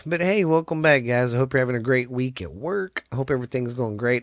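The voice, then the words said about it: Stuffy, congested voice. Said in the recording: “Sorry if I sound a little stuffy. Got a little hacky-hacky. My allergies have been kicking my ass ... my sinuses started kicking my booty”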